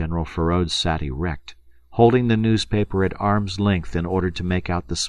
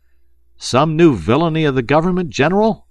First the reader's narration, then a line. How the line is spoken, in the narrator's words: A deep-chested veteran shouted across the café